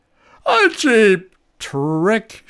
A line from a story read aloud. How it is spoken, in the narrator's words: bellowed at the sky